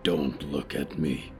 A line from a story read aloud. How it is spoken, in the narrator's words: the deer killer growled